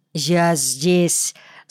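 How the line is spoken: Wooden voice. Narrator (Russian): сказал он деревянным голосом

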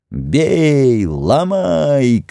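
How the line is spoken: Crowd shouting. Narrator (Russian): кричали

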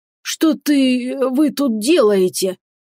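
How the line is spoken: Strained, forced words. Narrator (Russian): выдавил из себя хозяин таверны

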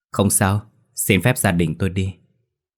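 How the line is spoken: Old man, smiling. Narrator (Vietnamese): Lão ăn mày mỉm cười nói

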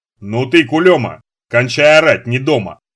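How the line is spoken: Angry growl. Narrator (Russian): рыкнул Сошин, лысина которого налилась багрянцем

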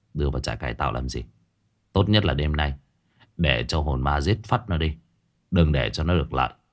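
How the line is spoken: Muttering. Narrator (Vietnamese): lẩm bẩm

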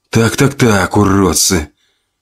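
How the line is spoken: Whisper with slight smile. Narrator (Russian): прошептал Максим с легкой улыбкой

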